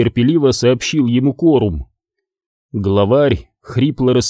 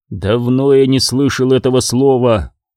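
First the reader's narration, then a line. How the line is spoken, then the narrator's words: Gloomy. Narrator (Russian): мрачно сказал Корум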